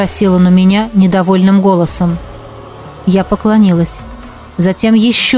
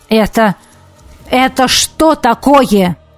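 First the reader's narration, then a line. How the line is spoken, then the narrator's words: Barked. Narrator (Russian): рявкнул он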